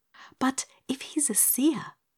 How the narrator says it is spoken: whispered Dorothy

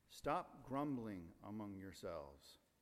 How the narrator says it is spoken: Jesus answered

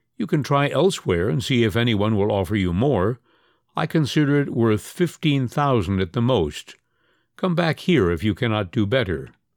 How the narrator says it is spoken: The other replied dryly

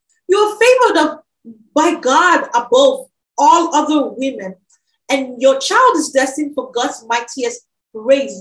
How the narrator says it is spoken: Elizabeth filled with the Holy Spirit, and then she gave a glad cry and exclaimed to Mary

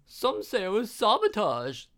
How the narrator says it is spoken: the lady squealed

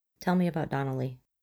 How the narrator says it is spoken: Her voice is gentle when she prompts

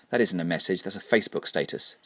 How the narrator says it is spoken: said the witch

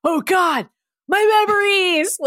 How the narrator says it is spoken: Logan cried out

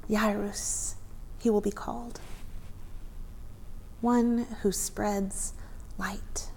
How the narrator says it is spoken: Yara held her newborn son, she breathed

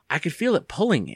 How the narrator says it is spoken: Andy said shakily

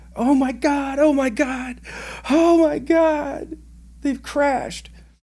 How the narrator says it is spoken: I hear over the radio screaming

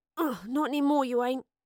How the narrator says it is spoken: grunted Astrid, as she forced her penknife through the last strands of rope

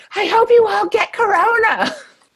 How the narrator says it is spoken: this woman yelled

